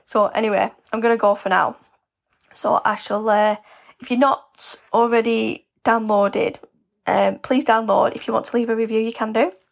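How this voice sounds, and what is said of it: Worn-out, slightly hoarse voice. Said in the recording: “I feel like my voice is gone a bit like, ugh.”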